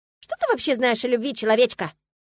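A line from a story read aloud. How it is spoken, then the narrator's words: Scoffing. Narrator (Russian): фыркнула Ириска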